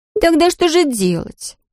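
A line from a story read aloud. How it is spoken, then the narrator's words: Hurt sobbing. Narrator (Russian): всхлипнула обиженно Дерра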